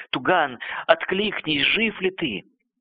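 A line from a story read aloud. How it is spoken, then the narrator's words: Desperate girl shouting. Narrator (Russian): Девочка с отчаянием закричала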